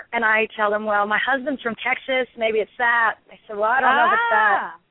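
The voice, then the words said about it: Mixed New England, Southern, Australian, English accent. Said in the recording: “you've got, like, the perfect meld of New England / South / Australian / England. It's just a very cool accent ... you don't sound like a Marylander”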